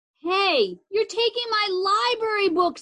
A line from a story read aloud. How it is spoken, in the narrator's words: I yelled